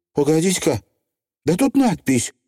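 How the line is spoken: Exclaimed. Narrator (Russian): воскликнула она

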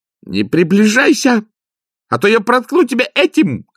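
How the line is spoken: Shouting. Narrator (Russian): крикнула она

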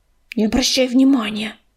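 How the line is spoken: Through gritted teeth. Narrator (Russian): процедила медуница

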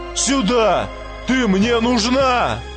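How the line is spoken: Sudden shout. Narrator (Russian): один из черных крикнул девчонке

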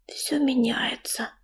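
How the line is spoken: Whispered. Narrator (Russian): прошептала Листвичка

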